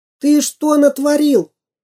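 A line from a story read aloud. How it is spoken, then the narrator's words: Shout. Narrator (Russian): закричал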